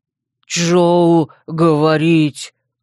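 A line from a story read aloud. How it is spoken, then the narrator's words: Menacing growl. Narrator (Russian): угрожающе прорычал тот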